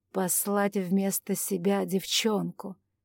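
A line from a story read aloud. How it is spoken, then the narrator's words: Contemptuous, through teeth. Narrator (Russian): Презрительно процедил Анджей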